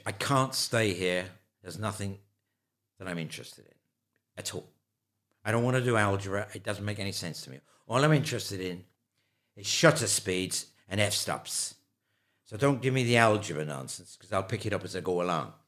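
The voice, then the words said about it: Put-on Irish accent. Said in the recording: “I've launched myself into an Irish accent here. I'm going to stop there and go back to my London accent.”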